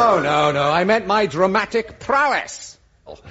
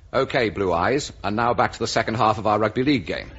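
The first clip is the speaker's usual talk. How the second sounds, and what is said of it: Humphrey Bogart impression. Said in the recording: “Humphrey Bogart. ... These voices are uncanny, aren't they?”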